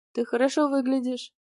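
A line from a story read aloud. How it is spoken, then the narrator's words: Soft male voice. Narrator (Russian): мужчина мягко сказал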